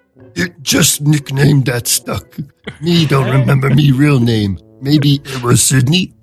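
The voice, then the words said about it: Cookie Monster character voice. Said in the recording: “Should I do the Cookie Monster voice? ... That's very good.”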